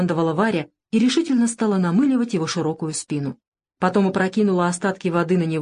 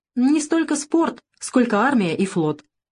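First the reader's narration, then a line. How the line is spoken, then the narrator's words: Laughing. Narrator (Russian): он рассмеялся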